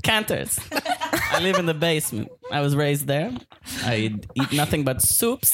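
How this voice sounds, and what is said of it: Put-on German-sounding accent. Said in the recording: “I'm having trouble placing your accent. ... It's German basement.”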